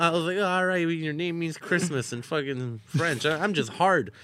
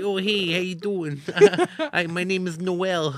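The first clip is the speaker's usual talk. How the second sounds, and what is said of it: Put-on Bronx accent. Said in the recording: “I'm from the Bronx ... She had a hot ass accent ... She went from a 5 to a 10 with that accent.”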